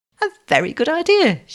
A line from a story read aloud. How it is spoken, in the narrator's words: she began, but stopped with a gasp